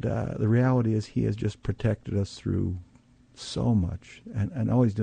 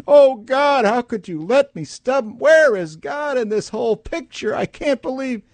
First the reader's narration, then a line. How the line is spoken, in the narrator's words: we scream to high heaven